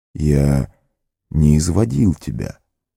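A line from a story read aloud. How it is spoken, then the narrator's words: Calm. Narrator (Russian): спокойно сказал маг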